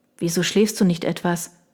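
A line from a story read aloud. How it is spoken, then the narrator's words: Quiet addition. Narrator (German): fügte ich leise hinzu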